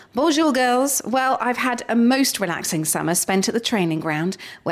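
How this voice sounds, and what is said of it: Put-on English accent. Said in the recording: “I think I will do it in an English accent. Otherwise, I'll turn into Welsh halfway through.”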